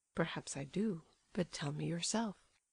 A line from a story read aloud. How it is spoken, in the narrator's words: said Nastasia Philipovna quietly